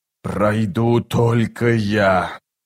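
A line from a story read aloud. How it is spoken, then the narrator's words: Sorcerer's hiss. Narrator (Russian): прошипел чародей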